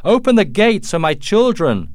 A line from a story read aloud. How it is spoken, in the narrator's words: Colonel Munro recognized his daughter's voice and shouted